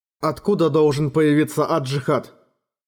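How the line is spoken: Plain. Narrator (Russian): спросил Эрагон

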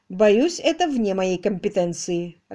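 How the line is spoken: Laughing. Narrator (Russian): рассмеялся Уимзи

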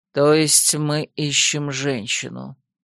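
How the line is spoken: Muttering. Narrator (Russian): пробормотал Ренар

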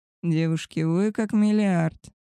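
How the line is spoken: Laughing merrily. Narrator (Russian): Весело рассмеялась Марго

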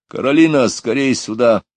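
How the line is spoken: Loud call. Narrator (Russian): громко позвал маму

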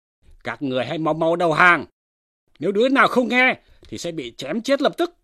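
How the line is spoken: Shouted. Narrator (Vietnamese): Tào Chính quát lên rằng

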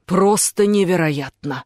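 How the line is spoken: Growled. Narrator (Russian): прорычал Уильям

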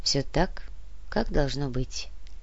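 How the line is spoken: Quiet. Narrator (Russian): тихо произнес митрополит

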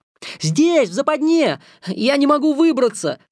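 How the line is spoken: Shouting. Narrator (Russian): крикнул Маугли

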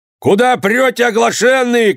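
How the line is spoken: Shouted. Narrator (Russian): крикнул сторож

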